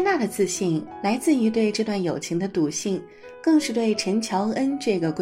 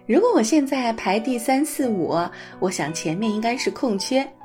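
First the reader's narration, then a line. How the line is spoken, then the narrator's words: Cheerful, grinning. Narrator (Chinese): 还笑嘻嘻地说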